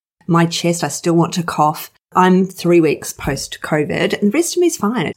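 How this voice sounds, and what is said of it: Slightly rough voice. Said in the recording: “my voice is a little bit rough still”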